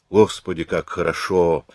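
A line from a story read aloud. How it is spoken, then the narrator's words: Sighing. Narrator (Russian): вздохнул он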